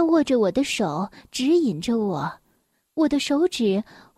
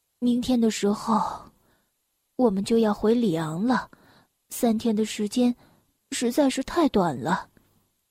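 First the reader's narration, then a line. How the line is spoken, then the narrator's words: Sighing. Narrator (Chinese): 他叹了口气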